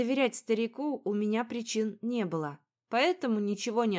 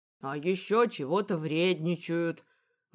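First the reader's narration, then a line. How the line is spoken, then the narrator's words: Snorting, hinting. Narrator (Russian): хмыкнул Михей, явно намекая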